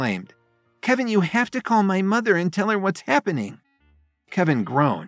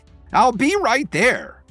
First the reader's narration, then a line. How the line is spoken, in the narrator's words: she exclaimed